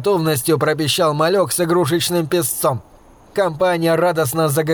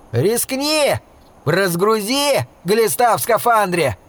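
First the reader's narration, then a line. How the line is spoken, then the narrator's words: Yelling. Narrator (Russian): Серега заорал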